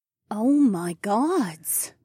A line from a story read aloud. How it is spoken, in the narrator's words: Mila breathed